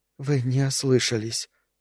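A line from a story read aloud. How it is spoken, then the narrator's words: Whispered. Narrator (Russian): прошептала девушка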